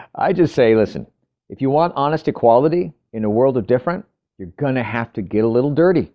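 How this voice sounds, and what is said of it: Usual voice. Nothing is said of it.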